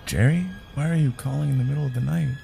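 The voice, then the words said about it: Drowsy, sleepy voice. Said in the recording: “picked up in a drowsy voice ... Hearing her sleepy voice”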